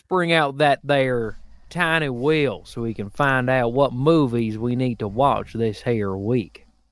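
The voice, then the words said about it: Put-on Southern Texas-style accent. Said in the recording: “accent ... like a weird Savannah, Texas thing”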